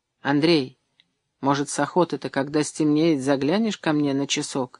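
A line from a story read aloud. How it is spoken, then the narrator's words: Hesitant. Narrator (Russian): неуверенно обронила Маня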